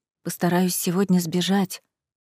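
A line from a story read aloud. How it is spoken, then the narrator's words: Quiet declaration. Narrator (Russian): тихо заявила подруге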